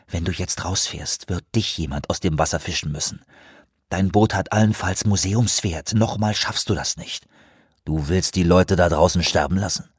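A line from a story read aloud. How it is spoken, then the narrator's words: Quiet. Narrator (German): sagte Anawak leise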